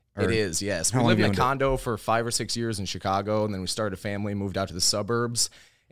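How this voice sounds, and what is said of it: Chicago accent. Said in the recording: “I can tell by your accent you grew up in Chicago”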